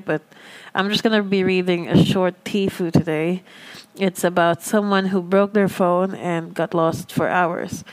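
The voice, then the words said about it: Lower, subdued voice. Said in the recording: “My voice is a little lower because I'm saving my air because our whole capital region is uh, affected by some volcanic air”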